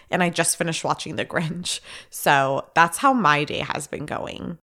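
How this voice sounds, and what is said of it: Sick, slightly nasal voice. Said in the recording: “If you can't tell by my voice, I am feeling a little bit under the weather... I really don't want my voice to sound annoying or like nasally.”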